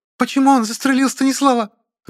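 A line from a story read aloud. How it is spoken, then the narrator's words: Shrill female scream from crowd. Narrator (Russian): Раздается из толпы визгливый женский крик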